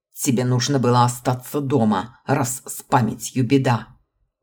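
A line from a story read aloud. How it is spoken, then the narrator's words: Grumbled. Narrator (Russian): буркнул преподаватель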